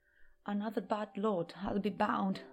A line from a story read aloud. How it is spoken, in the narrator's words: muttered Grandma Josephine